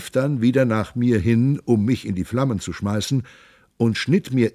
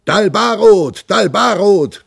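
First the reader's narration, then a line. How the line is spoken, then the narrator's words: Bellowing. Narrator (German): brüllte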